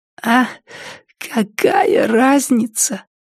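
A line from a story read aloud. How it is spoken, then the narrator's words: Hoarse rasp. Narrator (Russian): прохрипела Триша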